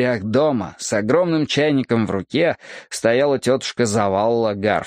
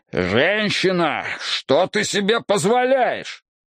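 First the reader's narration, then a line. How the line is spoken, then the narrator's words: Indignant roar. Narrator (Russian): дядюшка Сол возмущенно проревел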